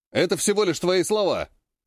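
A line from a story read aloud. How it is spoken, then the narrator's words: Loud, brash shout. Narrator (Russian): Выкрикнул нагло и громко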